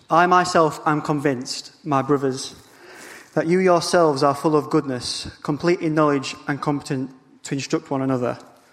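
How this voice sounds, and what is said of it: Speaks with a noticeable accent. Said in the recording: “apologies for the accent”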